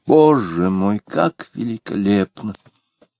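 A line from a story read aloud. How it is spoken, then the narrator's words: Sighed. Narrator (Russian): вздохнула Варвара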